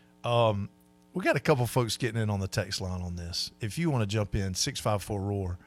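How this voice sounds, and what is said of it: Slightly gravelly voice. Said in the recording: “my voice is a little gravelly this morning because I pushed it hard last night”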